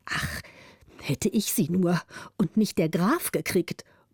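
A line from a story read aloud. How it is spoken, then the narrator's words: Muttering to himself. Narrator (German): murmelte der Zweite für sich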